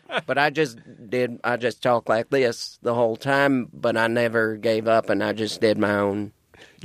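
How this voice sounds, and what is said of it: Subtle put-on Southern accent. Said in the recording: “I did my whole act in the Southern accent, just subtly... sort of Foghorn Leghorn type accent”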